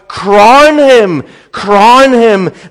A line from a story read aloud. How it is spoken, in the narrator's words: cried